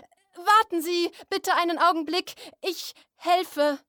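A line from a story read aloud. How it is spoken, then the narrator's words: Call. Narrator (German): rief Gerhard Grote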